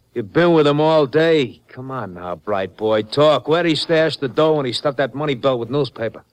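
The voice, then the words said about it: Brooklyn accent. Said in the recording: “a Brooklyn accent”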